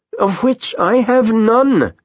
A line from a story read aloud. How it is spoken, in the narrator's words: Tomas cries